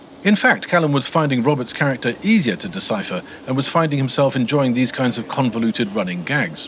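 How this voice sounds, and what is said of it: Usual voice. Nothing is said of it.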